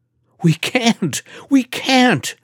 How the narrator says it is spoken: shrieked Stefan, who was reading the lines for the puppets

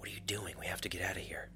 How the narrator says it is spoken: Lorik whispered

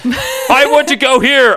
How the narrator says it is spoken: Apocalypse screamed awkwardly

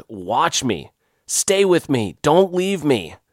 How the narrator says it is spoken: between breaths, Greg just yelled

